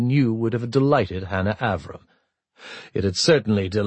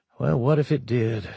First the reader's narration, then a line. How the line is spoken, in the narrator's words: She asked herself coldly